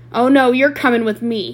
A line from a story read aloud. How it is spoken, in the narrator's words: snarled